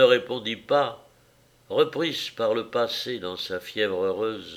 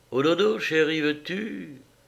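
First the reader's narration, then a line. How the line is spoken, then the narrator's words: Soft caressing voice. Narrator (French): d'une voix de caresse, légère comme un souffle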